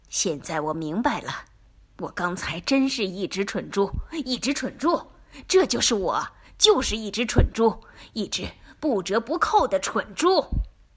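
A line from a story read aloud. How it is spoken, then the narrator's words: Sullen mutter. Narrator (Chinese): 他阴着脸咕哝说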